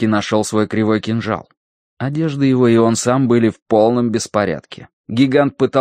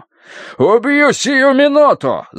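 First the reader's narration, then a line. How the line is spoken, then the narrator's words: Shrieking scream. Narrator (Russian): завопил он на грани визга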